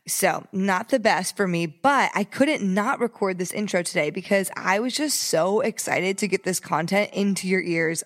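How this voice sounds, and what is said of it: Congested, stuffy-nosed voice. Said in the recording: “If you can't tell by my voice, I have some congestion because I have a sinus infection.”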